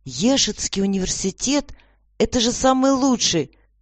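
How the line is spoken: Exclaimed. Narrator (Russian): воскликнул

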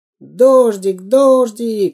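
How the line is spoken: Cheerful boys shouting. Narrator (Russian): весело кричали мальчишки

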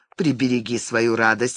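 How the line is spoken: Short laugh. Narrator (Russian): хохотнула она

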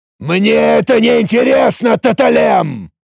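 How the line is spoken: Furious unrestrained growl. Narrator (Russian): Уже совершенно не сдерживаясь, буквально прорычал разъяренный Тарак

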